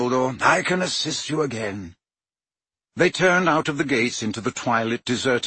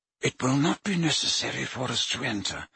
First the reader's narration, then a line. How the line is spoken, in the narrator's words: muttered Dumbledore